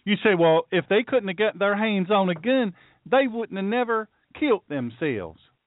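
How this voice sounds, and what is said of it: Silly put-on Southern accent. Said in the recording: “I did that in a silly accent ... The Southern accent”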